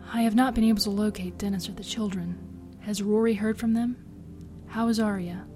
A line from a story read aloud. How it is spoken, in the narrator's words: she whispered